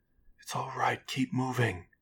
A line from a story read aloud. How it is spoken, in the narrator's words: Rachel whispered back